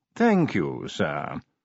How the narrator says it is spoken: said Willikins smoothly

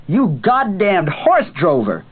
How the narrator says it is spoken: Cuthbert suddenly yelled, grinning

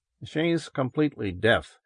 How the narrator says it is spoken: Helmar said softly close by him

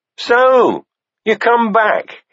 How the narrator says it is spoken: he called out

